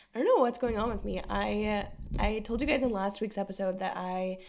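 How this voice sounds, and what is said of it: Sick-sounding voice. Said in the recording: “As you may be able to hear in my voice, I'm a little bit sick.”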